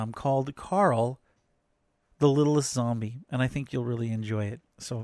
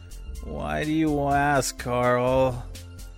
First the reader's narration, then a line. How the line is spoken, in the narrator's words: His mother mumbled in a tired voice